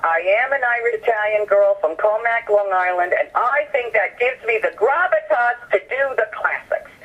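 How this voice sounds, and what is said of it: Long Island accent. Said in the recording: “my Long Island accent”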